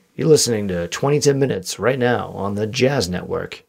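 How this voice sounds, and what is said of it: Smooth jazz radio announcer voice. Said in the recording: “my voice is gold ... I sound pretty good. I got a smooth jazz voice.”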